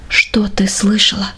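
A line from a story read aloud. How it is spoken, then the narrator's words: Quiet question. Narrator (Russian): спросил тихим голосом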